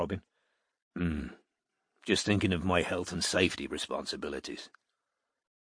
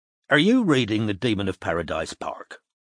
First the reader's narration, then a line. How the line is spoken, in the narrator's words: asked Strike sharply